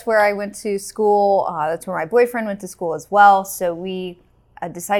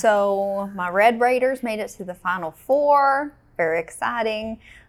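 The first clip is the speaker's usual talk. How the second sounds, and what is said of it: West Texas accent. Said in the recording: “I'm using my West Texas accent, I guess.”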